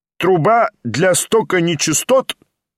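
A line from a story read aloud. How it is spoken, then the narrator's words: Loud inquiry. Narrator (Russian): громко осведомился доктор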